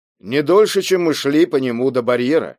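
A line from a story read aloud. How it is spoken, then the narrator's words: Plain. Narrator (Russian): ответил Джои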